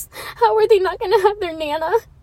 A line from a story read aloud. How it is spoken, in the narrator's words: I sobbed